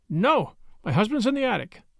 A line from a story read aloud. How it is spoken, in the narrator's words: In her fright, she blurted out